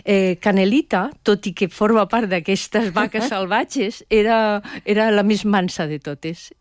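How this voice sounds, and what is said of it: Valencian Catalan accent. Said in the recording (Catalan): “aquest accent valencià que t'acompanya”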